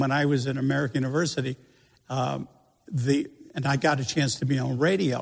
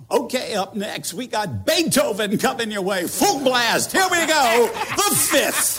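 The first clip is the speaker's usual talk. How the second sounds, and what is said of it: Put-on radio DJ voice. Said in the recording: “that kind of DJ voice, which I didn't really have”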